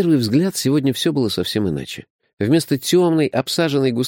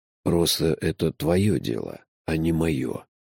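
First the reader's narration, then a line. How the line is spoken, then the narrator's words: Gentle. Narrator (Russian): мягко сказал Джуфин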